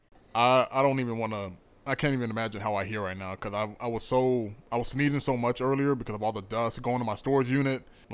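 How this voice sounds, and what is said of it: Rough, congested voice like a cold. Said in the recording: “my voice is probably gonna be a little bit rougher than uh, than usual ... you just sound like Jehovah with a cold”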